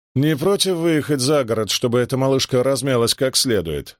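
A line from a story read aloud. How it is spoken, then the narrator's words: Plain. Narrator (Russian): спросил он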